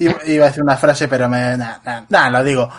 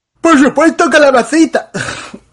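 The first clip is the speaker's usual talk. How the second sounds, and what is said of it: Cartoon character voice. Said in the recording (Spanish): “Me ha salido muy patricio.”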